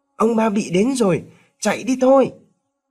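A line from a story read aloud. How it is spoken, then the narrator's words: Children shouting loudly. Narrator (Vietnamese): Vài đứa trẻ hét lớn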